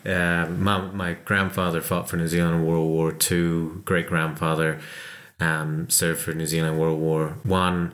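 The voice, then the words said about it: American accent. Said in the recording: “the American twang that still plagues me ... I grew up in California, so hence the accent”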